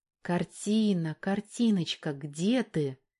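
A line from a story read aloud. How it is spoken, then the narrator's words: Quiet sing-song. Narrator (Russian): тихо нараспев произнесла Валька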